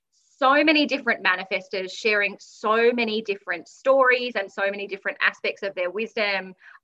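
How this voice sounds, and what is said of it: Australian accent. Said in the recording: “a fellow Australian. So now you get double the Australian accent ... For the Australian voices”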